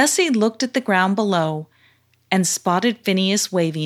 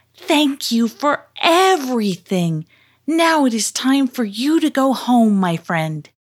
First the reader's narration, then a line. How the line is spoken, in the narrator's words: Karima shouted